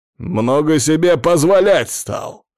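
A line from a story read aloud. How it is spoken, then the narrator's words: Gruff bark. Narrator (Russian): рявкнул генерал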